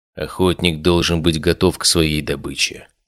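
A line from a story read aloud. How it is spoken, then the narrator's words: Quiet. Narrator (Russian): тихо сказал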